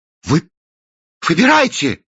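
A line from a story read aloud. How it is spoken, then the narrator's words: Exclaiming. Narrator (Russian): воскликнул Кранк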